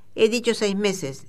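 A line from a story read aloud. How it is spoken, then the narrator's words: Exclaimed. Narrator (Spanish): exclamó Fogg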